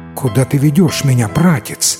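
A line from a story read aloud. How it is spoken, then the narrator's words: Trembling voice. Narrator (Russian): спросила Сиран дрожащим голосом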